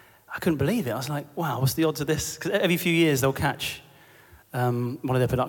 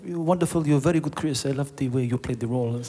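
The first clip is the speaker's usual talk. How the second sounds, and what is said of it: Terrible put-on French accent. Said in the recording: “He was French, by the way. Yeah, it's my terrible French impression.”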